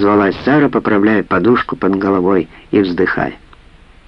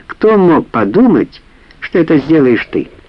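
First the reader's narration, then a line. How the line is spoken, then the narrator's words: Laughing loudly again. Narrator (Russian): снова расхохоталась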